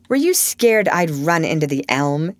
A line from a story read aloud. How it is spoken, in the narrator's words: he asked with a boyish laugh